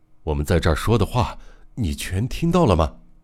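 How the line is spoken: Faint sighing murmur. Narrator (Chinese): 他用三谷听不到的低微的声音，叹息着喃喃地说

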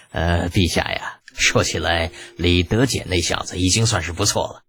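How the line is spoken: Laughing. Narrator (Chinese): 长孙无忌笑着接过话头

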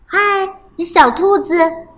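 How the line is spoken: Calling from outside. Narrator (Chinese): 有人在外面喊

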